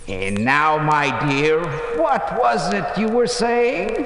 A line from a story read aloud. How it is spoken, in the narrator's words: he said